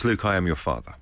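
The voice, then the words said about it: Darth Vader impression. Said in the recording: “best Darth Vader impression? ... Me with my pint glass”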